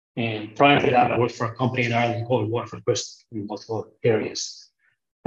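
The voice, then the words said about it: Irish accent. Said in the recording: “I'm sure listeners can hear from my accent. That's not where I'm from. Originally Irish”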